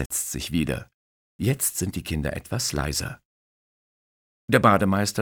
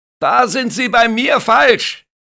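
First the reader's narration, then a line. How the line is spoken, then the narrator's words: Lifeguard shouting. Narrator (German): schreit der Bademeister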